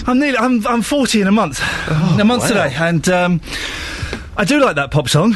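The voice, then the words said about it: Out of breath, breathless speech. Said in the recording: “I was dancing rather aggressively ... I'm out of breath”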